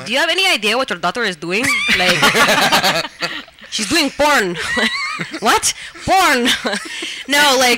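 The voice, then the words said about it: Put-on Filipino accent. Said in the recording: “can you say it just in Filipino accents so we can hear it?”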